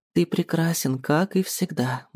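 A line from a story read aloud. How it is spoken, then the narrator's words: Young woman purring. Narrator (Russian): мурлыкает девушка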